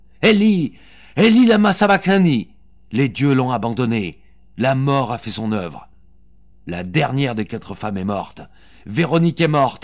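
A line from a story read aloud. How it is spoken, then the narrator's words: Shouted twice. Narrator (French): hurla deux fois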